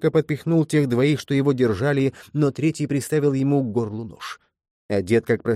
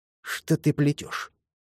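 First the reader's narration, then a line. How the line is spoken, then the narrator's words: Hissed into ear. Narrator (Russian): зашипел он в ухо Джекобу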